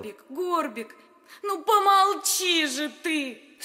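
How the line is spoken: Coaxing. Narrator (Russian): уговаривала его принцесса

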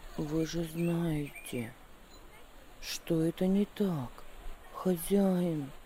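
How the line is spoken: Calm reply. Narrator (Russian): ответил он спокойно

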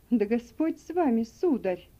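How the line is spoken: Grieved exclamation. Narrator (Russian): сокрушенно воскликнул Сэм

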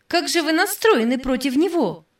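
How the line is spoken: Exclamation. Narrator (Russian): воскликнула Сади

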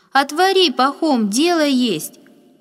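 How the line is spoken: Loud woman's reply. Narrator (Russian): громко отозвалась женщина

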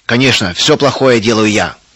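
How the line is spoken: Angry repetition. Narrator (Russian): Сердито повторил Густав

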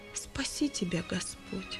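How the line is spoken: Quiet. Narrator (Russian): Иван тихим голосом произнес

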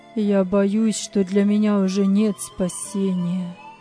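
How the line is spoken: Gloomy reply. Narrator (Russian): мрачно ответил Вилли

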